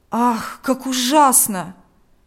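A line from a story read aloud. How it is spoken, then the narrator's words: Exclamation. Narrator (Russian): воскликнул один из них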